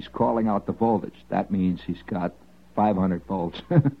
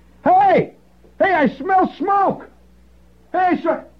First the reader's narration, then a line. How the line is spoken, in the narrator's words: high-pitched scream that echoed throughout the entire jungle